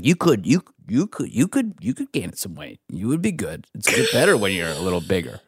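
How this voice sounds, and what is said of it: Impression of Henry Zebrowski. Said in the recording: “great Henry impression”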